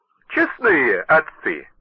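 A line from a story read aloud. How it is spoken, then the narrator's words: Good-natured tone. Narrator (Russian): начал он добродушным тоном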